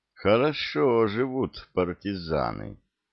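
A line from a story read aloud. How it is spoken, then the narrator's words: Drawling, ambiguous tone. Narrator (Russian): с непонятной интонацией протянул лейтенант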